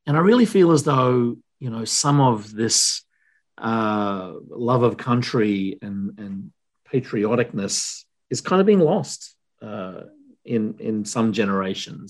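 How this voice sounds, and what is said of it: Australian accent. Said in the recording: “your accent, where are you from? And I'll say, well, I'm from Australia”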